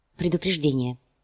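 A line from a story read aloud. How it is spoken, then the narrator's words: Quiet reply. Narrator (Russian): негромко ответила она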